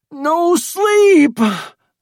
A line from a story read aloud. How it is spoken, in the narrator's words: screamed Sale